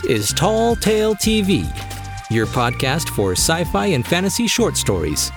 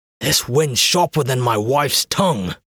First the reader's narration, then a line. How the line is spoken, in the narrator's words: grumbled one of them